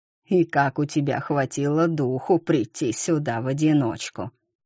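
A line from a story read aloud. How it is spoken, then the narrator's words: Plain. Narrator (Russian): сказал сторож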